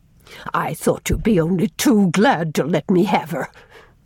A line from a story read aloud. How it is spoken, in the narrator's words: she sneered